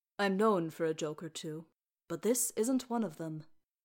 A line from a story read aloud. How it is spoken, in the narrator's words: he said calmly